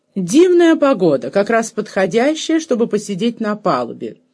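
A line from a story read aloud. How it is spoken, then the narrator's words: Loud, clear, sympathetic. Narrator (Russian): громко и отчетливо сообщила она им, и в голосе ее звучало задушевнейшее сочувствие и понимание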